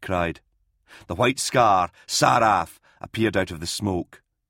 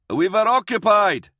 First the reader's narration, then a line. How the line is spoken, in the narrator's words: Collier yelled back